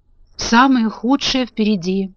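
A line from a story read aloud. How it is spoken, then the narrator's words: Sad. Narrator (Russian): печально продолжал дровосек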